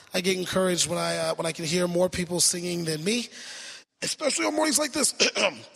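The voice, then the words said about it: Strained, worn-out voice. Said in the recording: “my voice is not 100% ... My voice is gone”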